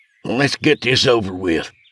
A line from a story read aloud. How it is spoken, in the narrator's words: grumbled Craig